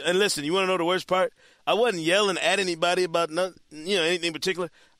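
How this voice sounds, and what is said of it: Hoarse, worn-out voice. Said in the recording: “I must have had to holler that thing 500 times Saturday. That's why my voice is shot ... I like that your voice is shot”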